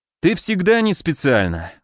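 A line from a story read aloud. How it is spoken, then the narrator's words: Sighing. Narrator (Russian): вздохнул я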